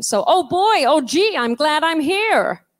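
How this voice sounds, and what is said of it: Throaty put-on American accent. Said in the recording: “get your voice in the back of your throat like this ... with your voice in the back of your throat, you've got to add in an American accent.”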